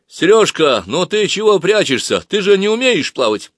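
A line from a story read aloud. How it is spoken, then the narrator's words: Loud. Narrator (Russian): Женька громко сказал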